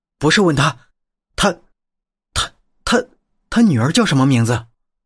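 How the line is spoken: Trembling voice. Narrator (Chinese): 我声音打颤

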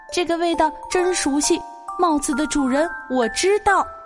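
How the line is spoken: Barking small dog. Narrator (Chinese): 一只小狗叫着说

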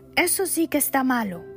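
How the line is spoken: Frantic shouting. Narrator (Spanish): gritó él, se levantó como un hombre loco

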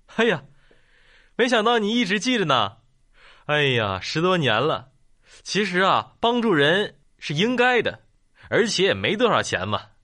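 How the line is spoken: Smiling, warm. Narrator (Chinese): 老板笑笑说

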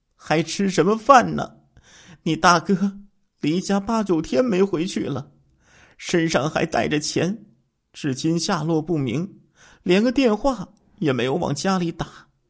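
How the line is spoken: Tearful voice. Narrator (Chinese): 刘品……带着哭腔说道

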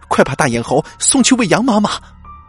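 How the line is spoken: Terrified urgent shout. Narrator (Chinese): 十分恐惧的静音赶紧喊道

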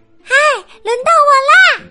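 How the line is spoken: Shouting. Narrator (Chinese): 茉莉也喊着

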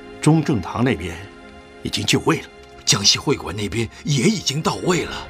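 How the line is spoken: Low voice. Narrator (Chinese): 唐叔低声地说着

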